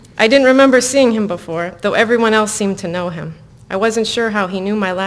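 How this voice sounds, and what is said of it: Usual voice. Nothing is said of it.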